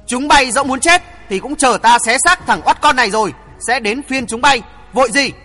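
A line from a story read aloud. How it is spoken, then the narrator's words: Loud shout. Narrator (Vietnamese): Trình Uy Viễn hét lớn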